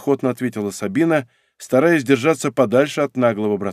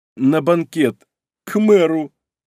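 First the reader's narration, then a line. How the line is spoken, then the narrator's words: Hurt sobbing. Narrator (Russian): обиженно всхлипнула Сабина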